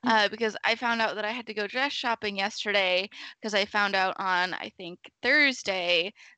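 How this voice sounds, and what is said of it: Groggy just-woke-up voice, throat clearing. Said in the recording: “I'm still waking up, so my voice is, I'm clearing my throat a lot”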